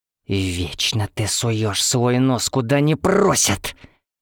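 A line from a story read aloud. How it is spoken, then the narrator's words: Angry hiss. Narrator (Russian): Гневно прошипела она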